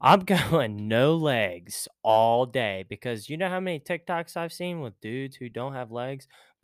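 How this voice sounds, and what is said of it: Usual voice. Nothing is said of it.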